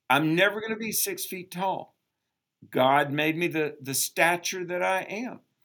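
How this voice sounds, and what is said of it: Southern American accent. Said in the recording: “I have a southern accent because I was born in the South ... they make fun of me because of my southern accent”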